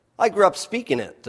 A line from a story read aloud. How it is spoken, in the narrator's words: the pilot said